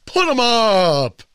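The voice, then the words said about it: Imitates the Cowardly Lion's voice. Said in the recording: “He's the cowardly lion. ... not a bad impression”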